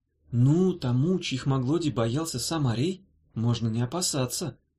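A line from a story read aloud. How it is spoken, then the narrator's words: Innocent singsong. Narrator (Russian): невинным голоском пропела Дафна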